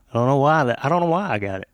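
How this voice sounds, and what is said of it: Strong Southern Arkansas twang. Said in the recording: “that redneck twang. Yeah, that's the Arkansas thing ... I think I have more of it than most people from Arkansas ... You got a lot. ... It's very distinct.”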